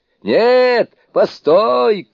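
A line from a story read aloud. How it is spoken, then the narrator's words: Shouted. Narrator (Russian): крикнул Суню-кун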